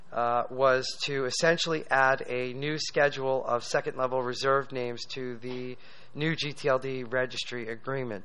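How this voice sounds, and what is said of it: Slightly strained, fading voice. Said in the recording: “my voice is going a little bit”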